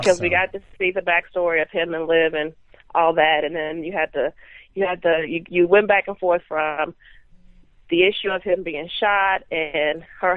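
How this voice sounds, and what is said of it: Strong Southern US accent. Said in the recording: “That Southern accent is strong”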